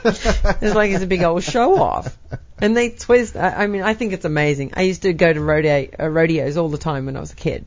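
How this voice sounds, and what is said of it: Australian accent. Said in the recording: “I was raised in North Queensland, Australia, in the outback out there. ... That's why you have a great accent.”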